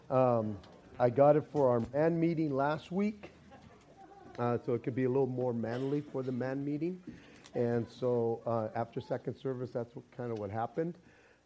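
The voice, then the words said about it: Raspy, hoarse voice. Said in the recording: “I have a little raspy voice this morning”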